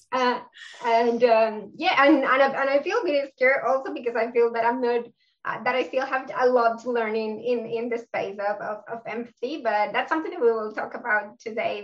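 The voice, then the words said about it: South American Spanish-accented English. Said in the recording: “My accent is from South America, so I'm from Colombia.”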